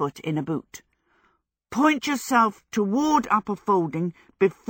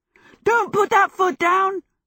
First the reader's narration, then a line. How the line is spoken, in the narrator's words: Michael yelled